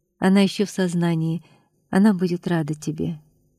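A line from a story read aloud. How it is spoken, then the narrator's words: Quiet. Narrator (Russian): спокойно и негромко сказала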